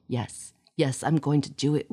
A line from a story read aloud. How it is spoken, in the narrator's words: whispered Cassie